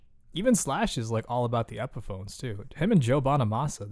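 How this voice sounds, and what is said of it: Usual voice. Nothing is said of it.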